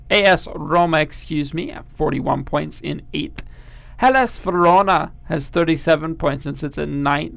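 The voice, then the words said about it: Bad put-on German accent. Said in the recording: “I've put on a German accent for this... No. Very bad.”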